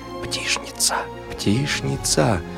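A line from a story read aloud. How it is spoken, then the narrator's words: Crowd whispering. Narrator (Russian): шептались в толпе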